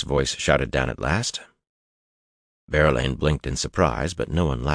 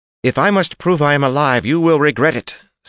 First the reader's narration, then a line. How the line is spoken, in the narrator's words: Siona denounced loudly in crisp Kyrianan accents, a little more heated